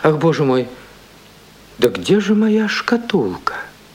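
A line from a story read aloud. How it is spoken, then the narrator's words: Aunt's immediate exclamation. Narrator (Russian): тетушка сейчас же воскликнула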